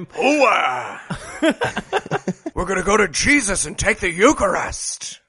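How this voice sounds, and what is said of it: Imitates a preacher's odd accent. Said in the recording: “what accent does the priest have? ... fucking Al Pacino from Scarface is standing up there preaching”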